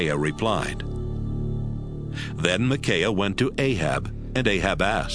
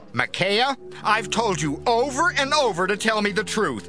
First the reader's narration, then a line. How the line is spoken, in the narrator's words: Ahab shouted